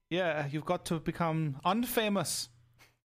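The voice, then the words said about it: Put-on German accent. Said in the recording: “That's my German accent. ... That's good. ... Spot on, I think you'll find.”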